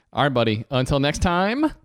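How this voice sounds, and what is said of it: Smooth radio announcer voice. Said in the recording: “I liked your radio voice there. That was good.”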